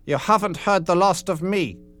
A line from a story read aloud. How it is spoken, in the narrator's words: yelled von Stahlhelm